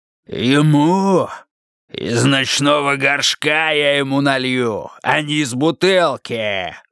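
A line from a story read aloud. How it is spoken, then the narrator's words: Roar. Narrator (Russian): взревел Скелли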